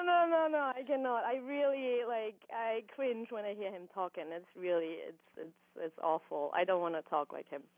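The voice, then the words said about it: Austrian-accented English. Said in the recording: “I can hear your accent ... I'm from Europe. I'm from Austria ... I do hope I have a little bit of a different accent than he does”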